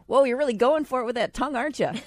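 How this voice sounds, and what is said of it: Put-on Upper Midwest accent. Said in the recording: “Are you from Wisconsin? ... She sounds like she's from Wisconsin. ... You from North Dakota? ... Or Minnesota? Are you from Minnesota?”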